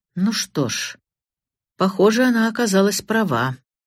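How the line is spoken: Grim. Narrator (Russian): мрачно произнес Сэроколд

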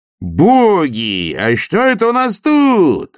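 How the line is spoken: Exclaiming. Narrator (Russian): воскликнул Стук

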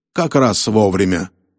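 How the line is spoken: Grumbling. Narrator (Russian): проворчал Роллинс

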